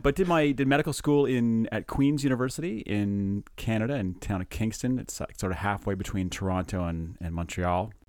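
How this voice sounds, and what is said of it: Slight Canadian accent. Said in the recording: “Some people say they can hear the Canadian accent coming through. Now and again ... I can hear it.”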